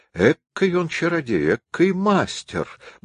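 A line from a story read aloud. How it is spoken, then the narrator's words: Muttering while walking. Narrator (Russian): бормотал старик на ходу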